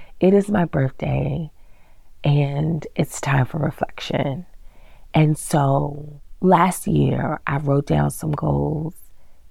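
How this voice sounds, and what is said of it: Raspy voice. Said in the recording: “excuse the raspiness that is still in my voice ... sorry about the voice”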